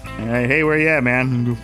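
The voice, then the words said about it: Imitates another person's voice. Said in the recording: “good impersonation there.”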